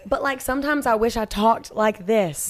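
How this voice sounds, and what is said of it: Put-on Southern American accent. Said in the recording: “Sometimes I wish I had a Southern accent. ... I'm so attracted to Southern accents. ... I love a Southern accent.”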